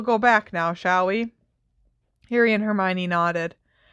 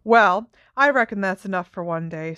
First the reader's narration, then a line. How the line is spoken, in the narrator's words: said Hagrid